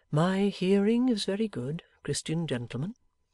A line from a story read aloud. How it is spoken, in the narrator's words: replied the old man calmly